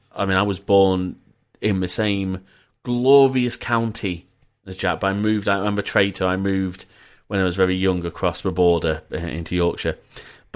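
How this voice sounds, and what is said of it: Northern English accent. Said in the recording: “my northern accent's become a little bit stronger in this episode”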